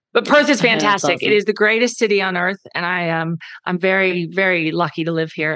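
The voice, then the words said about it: Loud American Texan accent. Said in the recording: “I'm the loud Texan ... my American accent ... I am the loud Texstralian”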